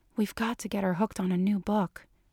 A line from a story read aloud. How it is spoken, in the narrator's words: Dana said under her breath